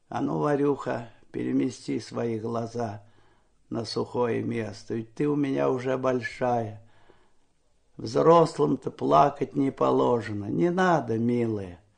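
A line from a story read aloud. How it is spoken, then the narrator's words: Quiet, encouraging. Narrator (Russian): ободряюще улыбался и тихо говорил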